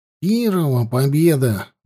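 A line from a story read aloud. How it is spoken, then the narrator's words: Sighing. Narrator (Russian): вздохнул Петька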